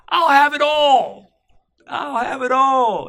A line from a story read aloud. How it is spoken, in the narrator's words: in this burst of joy, the child exclaimed